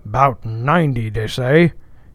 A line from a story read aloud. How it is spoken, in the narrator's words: he gloomily muttered